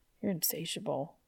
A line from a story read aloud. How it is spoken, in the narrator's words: Dean mumbled